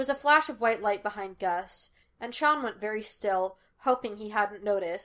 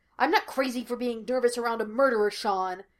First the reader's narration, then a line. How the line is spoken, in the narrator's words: Gus snapped